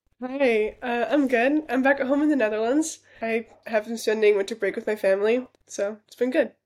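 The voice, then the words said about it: American English accent. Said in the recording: “Your accent is very American when you're speaking English ... this American accent”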